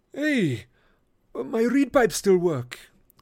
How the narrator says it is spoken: Grover cried

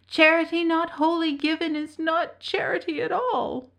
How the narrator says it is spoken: moaned the beggar

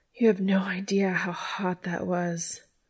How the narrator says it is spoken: panted

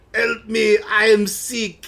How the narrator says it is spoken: he says in a strong French accent

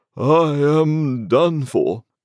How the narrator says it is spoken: he barbarously bellowed

